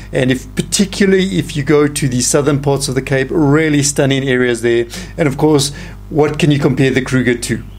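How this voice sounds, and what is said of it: South African accent. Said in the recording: “my accent is from Africa, of course. From Southern Africa, from the beautiful land of South Africa”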